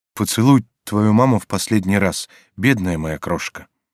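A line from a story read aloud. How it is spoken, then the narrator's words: Tender. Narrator (Russian): Бива нежно сказал ей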